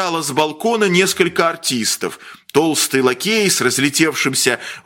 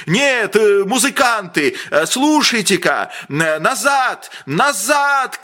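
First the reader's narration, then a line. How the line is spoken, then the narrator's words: Breathless shouting. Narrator (Russian): кричал он, задыхаясь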